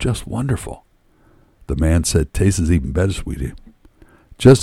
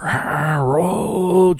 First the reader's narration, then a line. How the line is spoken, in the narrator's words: she screamed